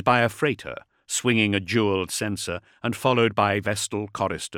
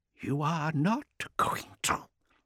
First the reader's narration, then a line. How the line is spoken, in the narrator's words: hissed Mendeleev